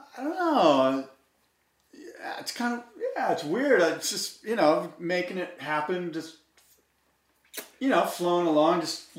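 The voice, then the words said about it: Imitates another person's voice. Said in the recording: “here's my Hobgood interview impersonation.”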